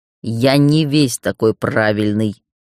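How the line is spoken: Growled. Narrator (Russian): прорычал Гроу

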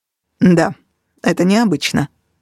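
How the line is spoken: Sharp reply. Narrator (Russian): резко ответил Костя

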